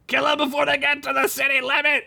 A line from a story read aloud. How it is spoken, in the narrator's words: shouted the mayor